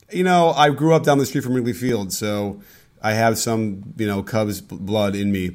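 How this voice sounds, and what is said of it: Slightly cracky voice. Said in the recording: “My voice is a little bit cracky because I went to the Dodgers-Cubs game”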